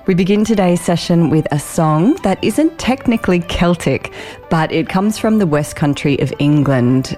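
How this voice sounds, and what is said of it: Croaky, raspy voice. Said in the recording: “You might notice that I'm a little bit croaky ... my raspy voice”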